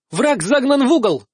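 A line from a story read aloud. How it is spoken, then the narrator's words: Shouted. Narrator (Russian): закричала Мариска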